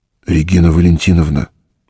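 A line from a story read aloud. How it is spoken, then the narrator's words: Deliberately low, slightly hoarse. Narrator (Russian): старался, чтобы голос его звучал низко и чуть хрипло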